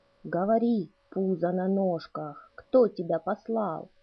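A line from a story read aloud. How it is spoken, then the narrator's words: Threatening hissing growl. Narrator (Russian): Угрожающий рык шипения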